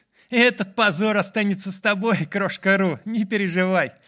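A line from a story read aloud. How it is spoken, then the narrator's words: Laughing. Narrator (Russian): Засмеялся Майлз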